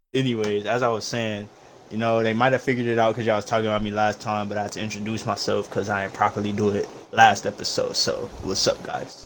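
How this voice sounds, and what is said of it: Sounds like a SoundCloud rapper. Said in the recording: “you sound like a SoundCloud rapper”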